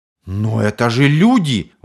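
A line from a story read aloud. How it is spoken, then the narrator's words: Astonished exclamation. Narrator (Russian): воскликнул пораженный Нерло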